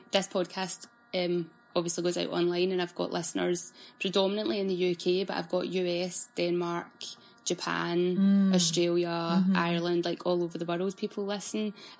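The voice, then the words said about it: Scottish Glaswegian accent. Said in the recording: “I've been told I've got a very broad Scottish ... I don't think I've got a very broad Glaswegian accent”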